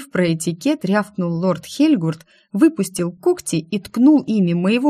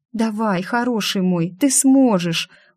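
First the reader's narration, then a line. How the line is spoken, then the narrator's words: Coaxing. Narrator (Russian): уговаривала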